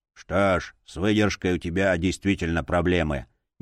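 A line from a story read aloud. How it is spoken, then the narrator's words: Displeased grumbling. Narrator (Russian): недовольно проворчала кукла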